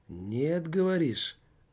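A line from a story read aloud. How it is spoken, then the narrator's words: Muffled, hollow voice. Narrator (Russian): глухо произнес голос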